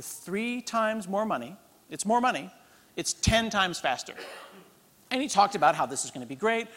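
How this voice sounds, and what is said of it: Usual voice. Nothing is said of it.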